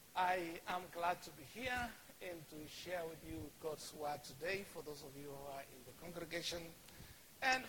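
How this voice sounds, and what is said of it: Kenyan English accent. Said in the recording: “I am Kenyan, and so my accent is going to be Kenyan ... I have tried ... to kind of change my accent, and that is the one thing I've never succeeded.”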